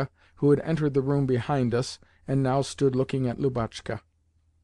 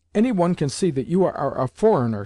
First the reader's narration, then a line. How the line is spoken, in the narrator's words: she cried